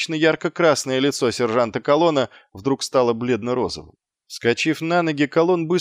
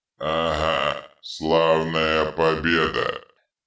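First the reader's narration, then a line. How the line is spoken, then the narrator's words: Hateful grumble. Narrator (Russian): пробурчал Детрит, с ненавистью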